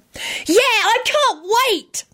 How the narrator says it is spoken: Tim hollered

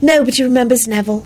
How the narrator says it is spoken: Ginny sighed, but did not seem particularly bothered

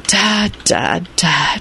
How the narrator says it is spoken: he sighed

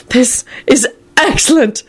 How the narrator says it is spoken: George wheezed

